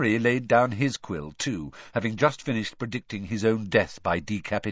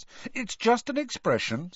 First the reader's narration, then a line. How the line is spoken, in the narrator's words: said Ron hastily